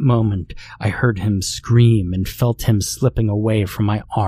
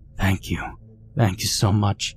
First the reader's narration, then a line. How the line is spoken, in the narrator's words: was whispering